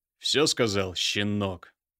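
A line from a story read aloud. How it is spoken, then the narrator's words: Stern words through teeth. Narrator (Russian): процедил строго Михаил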